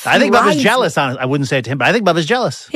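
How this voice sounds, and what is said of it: Imitates another person's voice. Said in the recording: “That's my Bill Belichick impression. ... That's really good.”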